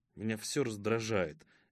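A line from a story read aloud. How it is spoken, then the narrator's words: Grumbling mutter. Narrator (Russian): буркнул Томах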